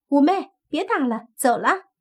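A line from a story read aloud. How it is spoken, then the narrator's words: Calling out. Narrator (Chinese): 红衣狐妖便喊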